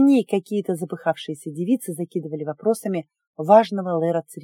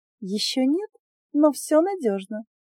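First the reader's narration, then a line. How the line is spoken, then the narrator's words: Meaningful tone. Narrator (Russian): многозначительно сказала Дарца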